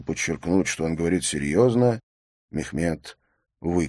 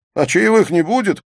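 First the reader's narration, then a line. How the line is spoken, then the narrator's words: Laughing shout. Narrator (Russian): со смехом прокричал Мехмед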